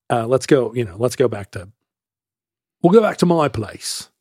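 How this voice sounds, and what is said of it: Imitated Seattle accent. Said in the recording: “he said in his Seattle accent”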